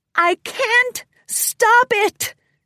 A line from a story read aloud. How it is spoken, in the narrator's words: Cadence cried out